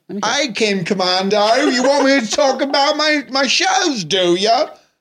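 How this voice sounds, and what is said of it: Put-on Cockney accent. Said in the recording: “I only can do Cockney. ... I get into full Cockney. ... That was commitment.”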